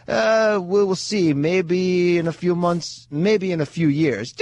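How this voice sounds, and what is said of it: Bad Miguel Cotto impression. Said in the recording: “that was a bad Miguel Cotto impersonation”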